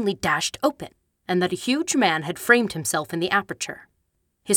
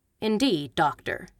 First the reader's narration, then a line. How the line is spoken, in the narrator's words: said Holmes blandly